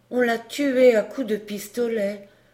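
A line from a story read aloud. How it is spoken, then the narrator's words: Murmur. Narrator (French): murmura Georget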